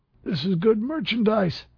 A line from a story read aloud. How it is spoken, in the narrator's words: the dealer squealed